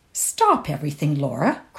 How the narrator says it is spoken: cried Josie in astonishment

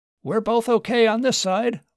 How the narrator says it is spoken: Martin shouted back

